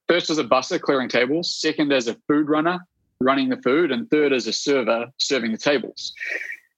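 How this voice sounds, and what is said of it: Appealing non-local accent. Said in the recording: “you got a kind of a sexy accent”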